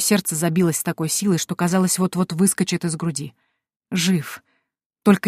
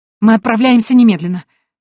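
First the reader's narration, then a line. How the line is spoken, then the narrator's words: Exclaiming. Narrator (Russian): воскликнула я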